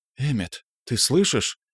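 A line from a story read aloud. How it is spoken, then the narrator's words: Quiet question. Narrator (Russian): тихо спросила Ирен у меня за спиной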